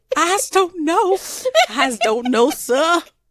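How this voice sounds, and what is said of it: Exaggerated Southern accent. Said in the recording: “I'm Southern, so I can play that... most Southern accents in TV and film are terrible. We do not sound like we're from the Civil War.”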